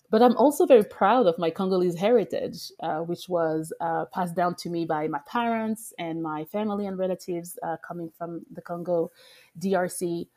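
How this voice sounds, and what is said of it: French accent. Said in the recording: “My accent is French also still, even after 12 years in the U.S.”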